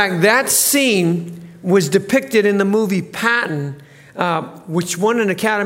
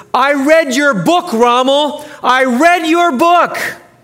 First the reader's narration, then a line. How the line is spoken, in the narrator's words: He shouted